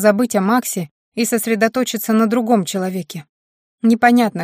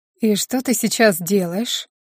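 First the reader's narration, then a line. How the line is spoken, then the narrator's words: Insinuating question, bandit. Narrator (Russian): вкрадчиво спросил бандит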